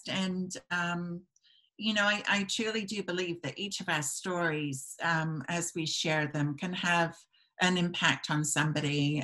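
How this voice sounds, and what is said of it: British accent. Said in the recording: “a funny accent, because everybody's going to be saying, where does she come from? I was born in the UK”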